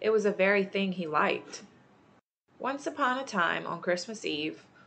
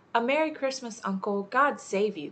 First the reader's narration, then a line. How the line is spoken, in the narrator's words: cried a cheerful voice